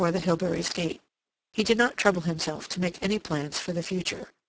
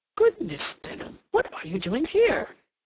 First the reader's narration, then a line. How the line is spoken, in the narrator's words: he exclaimed, recognizing him